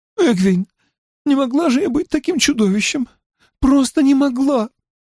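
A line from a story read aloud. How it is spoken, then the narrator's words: Tearful, sobbing. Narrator (Russian): Сквозь слезы она произнесла, всхлипывая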